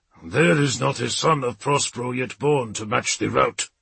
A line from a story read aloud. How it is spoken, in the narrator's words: Halfdan's reply growled across the Voxlink